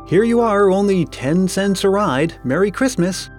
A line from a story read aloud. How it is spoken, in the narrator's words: shouted Orville gaily